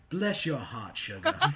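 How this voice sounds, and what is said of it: Sweet Southern American accent. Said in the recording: “in a nice southern accent”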